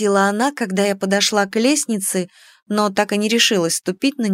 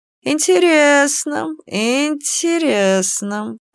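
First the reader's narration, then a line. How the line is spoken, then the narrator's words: Drawled. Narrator (Russian): протянула Ишара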